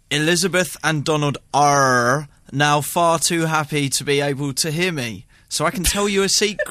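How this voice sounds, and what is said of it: Attempted Somerset accent, rolled R's. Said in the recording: “You basically just wrap the R's, don't you? ... I just can't imagine what a Somerset accent is”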